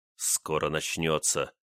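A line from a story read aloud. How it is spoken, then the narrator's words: Through gritted teeth. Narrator (Russian): сквозь зубы произнес Чайка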